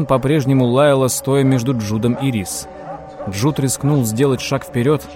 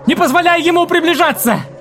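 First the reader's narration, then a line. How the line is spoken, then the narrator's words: Screaming. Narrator (Russian): завопила Джессика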